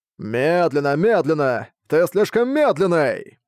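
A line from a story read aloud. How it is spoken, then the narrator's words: Butcher shouting at full force. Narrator (Russian): Мясник кричал изо всех сил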